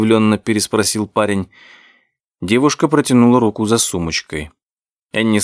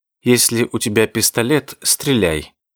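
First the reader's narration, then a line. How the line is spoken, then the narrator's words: Cold, curt. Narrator (Russian): холодно бросила Энни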